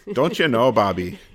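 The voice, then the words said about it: Put-on Minnesota accent. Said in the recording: “my Minnesota accent”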